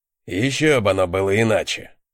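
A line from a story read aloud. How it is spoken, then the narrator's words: Gruff veteran snort. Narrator (Russian): хмыкнул этот матерый вояка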